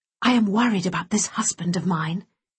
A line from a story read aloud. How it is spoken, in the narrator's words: she whispered to her brother